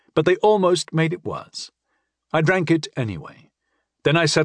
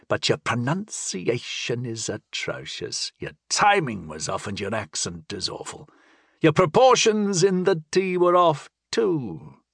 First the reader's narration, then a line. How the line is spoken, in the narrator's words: chided, her voice as creaky as a leather hinge